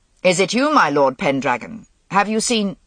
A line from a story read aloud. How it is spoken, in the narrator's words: Gaulois said sharply